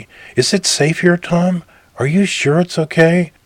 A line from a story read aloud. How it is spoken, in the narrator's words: Her voice had a quavering, bird-like Celtic lilt